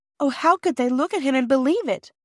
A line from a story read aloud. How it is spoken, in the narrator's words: cried Bobby